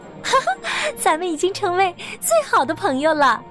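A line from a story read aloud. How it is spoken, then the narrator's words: Laughing while talking. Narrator (Chinese): 她们边笑边说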